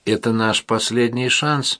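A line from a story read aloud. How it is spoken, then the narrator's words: Sad. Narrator (Russian): печально сказала Мэри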